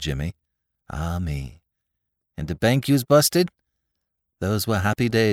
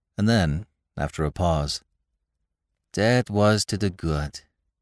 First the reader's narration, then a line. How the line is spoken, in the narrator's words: he said wistfully